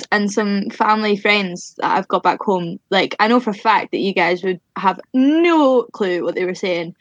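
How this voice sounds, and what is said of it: Mild Scottish accent. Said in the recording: “Orla's accent, though, even though we joke, she is incredibly easy to understand ... My accent's always mellow compared to some of my pals from back home ... My accent's quite mellow anyway, and then living down in England for the past 3 years, it's calmed down quite a bit.”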